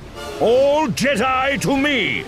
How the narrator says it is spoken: Master Roy bellowed

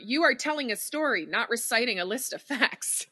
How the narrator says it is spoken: yell at myself

